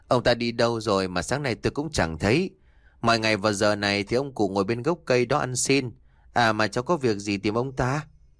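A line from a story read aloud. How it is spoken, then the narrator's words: Old woman, gentle smiling reply. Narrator (Vietnamese): Bà cụ mỉm cười đáp lại bằng cái giọng nhẹ nhàng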